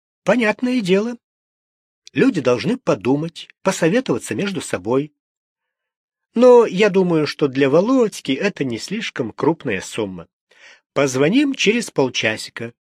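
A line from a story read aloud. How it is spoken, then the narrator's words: Fairly calm. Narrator (Russian): довольно спокойно ответила Ольга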